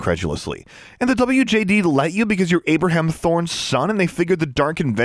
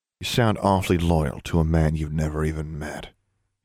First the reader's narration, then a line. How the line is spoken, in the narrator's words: he said quietly